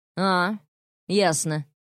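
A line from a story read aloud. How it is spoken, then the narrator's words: Icy cold tone. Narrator (Russian): ледяным тоном отозвался он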